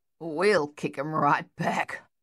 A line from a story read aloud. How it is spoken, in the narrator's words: Luther growled